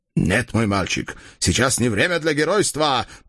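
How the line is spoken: Growl. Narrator (Russian): прорычал было Сарам

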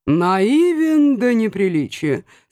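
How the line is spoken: Sympathetic sigh, cat. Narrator (Russian): сочувственно вздохнул кот

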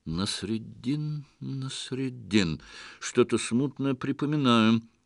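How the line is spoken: Thoughtful low mutter. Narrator (Russian): задумчиво пробормотал лев

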